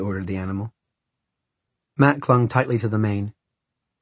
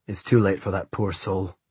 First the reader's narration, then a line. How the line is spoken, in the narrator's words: grunted the bodyguard